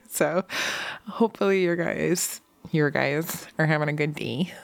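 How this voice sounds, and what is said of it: Sexy voice. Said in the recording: “That's my sexy voice from now on.”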